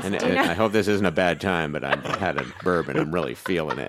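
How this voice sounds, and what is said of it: Tipsy waspy mumbling voice. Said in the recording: “What is this impersonation of me? I sounded like ... 70s ... I'm so proud of the waspy mumble acquired through alcohol.”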